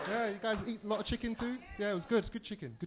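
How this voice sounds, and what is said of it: British accent. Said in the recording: “Is that your accent for real?... say something, British homie”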